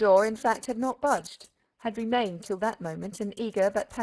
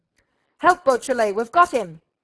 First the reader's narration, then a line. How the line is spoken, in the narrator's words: Ganimard bellowed